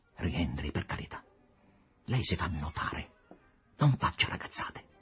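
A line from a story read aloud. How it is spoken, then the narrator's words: Quiet, stiff. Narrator (Italian): disse piano, rigida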